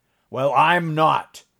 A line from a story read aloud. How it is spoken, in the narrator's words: snapped Morgan, as though he'd been screaming at them